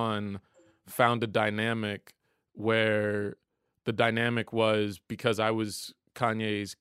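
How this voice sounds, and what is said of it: Usual voice. Nothing is said of it.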